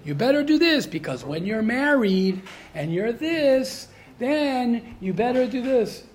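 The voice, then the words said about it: Put-on lecturing accent. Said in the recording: “I'm sorry I'm using an accent over here ... It's appropriate accent, right?”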